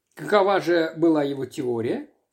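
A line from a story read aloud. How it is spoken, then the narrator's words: Plain. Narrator (Russian): спросил отец Браун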